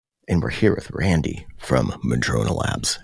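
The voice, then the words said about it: Deep announcer-style radio voice. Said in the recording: “How do you like that radio voice?”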